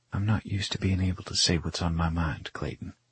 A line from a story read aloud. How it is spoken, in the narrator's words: she whispers